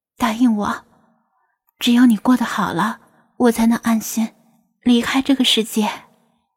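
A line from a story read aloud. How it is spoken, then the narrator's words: Soft whisper. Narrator (Chinese): 他在菲娜的耳边轻声说道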